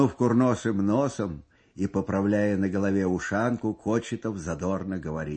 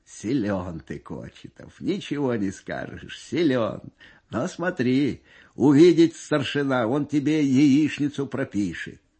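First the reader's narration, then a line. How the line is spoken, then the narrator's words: Amused after hearty laughter. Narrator (Russian): Насмеявшись всласть и вытирая на глазах слезы, командир взвода лейтенант Бесов говорит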